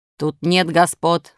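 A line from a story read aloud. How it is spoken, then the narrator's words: Rude, gruff. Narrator (Russian): сказал ему грубо хозяин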